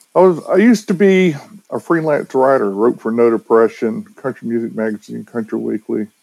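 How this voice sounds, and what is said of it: Southern drawl. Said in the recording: “somebody my size with a beard who talks with a southern drawl”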